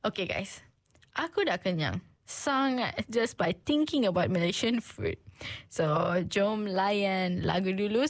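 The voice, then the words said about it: Bad, congested sick-sounding voice. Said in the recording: “I would like to apologize for my bad voice. I'm having flu and cold.”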